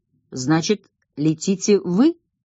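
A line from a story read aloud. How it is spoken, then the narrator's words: Calm statement. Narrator (Russian): спокойно констатировал Грехов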